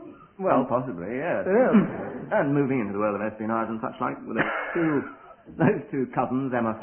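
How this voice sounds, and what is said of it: Usual voice. Nothing is said of it.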